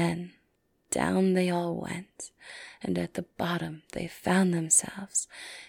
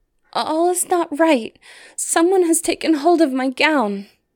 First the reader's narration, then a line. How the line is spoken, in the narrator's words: she cried out to her sisters